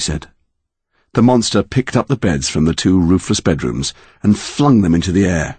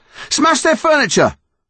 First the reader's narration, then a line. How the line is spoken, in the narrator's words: Connor shouted